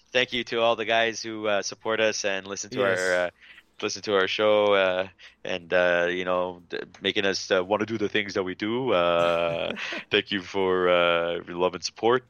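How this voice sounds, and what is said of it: Impression of a co-host. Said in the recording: “That's me trying to do my best Adrian impression.”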